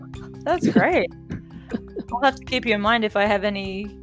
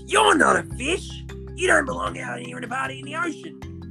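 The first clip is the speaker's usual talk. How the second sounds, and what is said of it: Bully character voice. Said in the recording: “did the voice because it was an anti-bullying sort of thing ... I was playing the bully character, and that's what he sounded like.”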